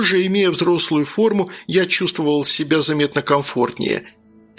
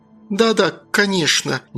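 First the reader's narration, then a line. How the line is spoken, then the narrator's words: Unsure mumble. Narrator (Russian): неуверенно промямлила, согласилась брюнетка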